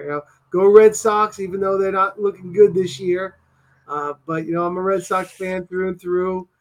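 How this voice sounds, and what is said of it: New England Boston accent. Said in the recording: “I am a New Englander. I'm born and raised in Massachusetts. So I say Ka and Dota ... I got the accent ... That's how I talk up here.”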